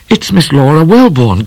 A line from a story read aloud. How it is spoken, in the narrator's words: cried Midnight